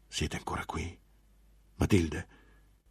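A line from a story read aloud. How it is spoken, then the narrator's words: Monk whispering. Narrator (Italian): bisbigliò finalmente il monaco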